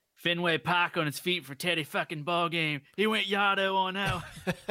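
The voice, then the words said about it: Bad put-on Boston accent. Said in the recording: “I'm mixing like all kinds of accents. I can't do it ... that Boston accent's bad ... butchered the shit out of”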